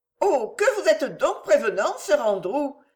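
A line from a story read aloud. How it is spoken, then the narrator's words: Cheerful. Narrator (French): dit-elle gaiement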